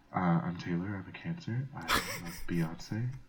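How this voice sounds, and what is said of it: Sultry late-night radio voice. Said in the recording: “sexy voice ... I feel like I'm on like 102.1, like magic. The midnight hour.”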